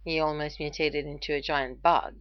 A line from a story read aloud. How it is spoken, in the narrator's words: Ronan said flatly